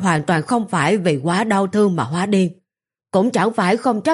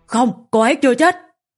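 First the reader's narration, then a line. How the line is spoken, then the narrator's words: Shouting back. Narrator (Vietnamese): Trần Tông cũng hét lại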